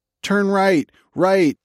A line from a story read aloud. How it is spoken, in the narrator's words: Dave Rover screamed